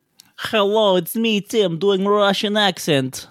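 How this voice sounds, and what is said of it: Put-on Russian accent. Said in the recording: “do a Russian accent.”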